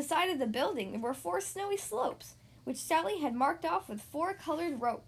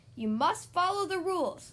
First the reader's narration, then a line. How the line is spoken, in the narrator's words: called out Sally Sue Breeze